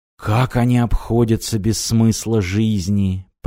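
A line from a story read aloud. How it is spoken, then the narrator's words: Muttering. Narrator (Russian): пробормотал Мартин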